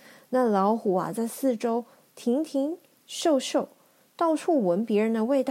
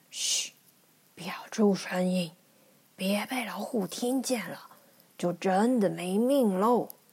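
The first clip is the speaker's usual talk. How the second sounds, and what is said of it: Whispering, hushed voice. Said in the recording (Chinese): “小声地说”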